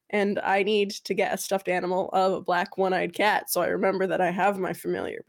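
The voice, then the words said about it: Slightly hoarse voice after illness. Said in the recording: “getting that frog that's lodged in my throat ... I am the one that was sick ... My voice is almost back to normal”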